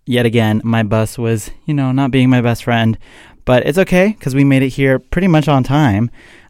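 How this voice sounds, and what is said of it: Out of breath, breathless speech. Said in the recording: “I'm a little bit out of breath.”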